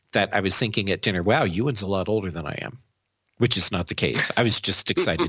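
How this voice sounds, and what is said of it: American accent. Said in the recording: “my crazy American accent”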